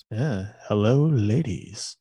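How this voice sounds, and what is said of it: Smooth baritone radio voice. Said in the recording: “Smooth baritone voice, radio voice”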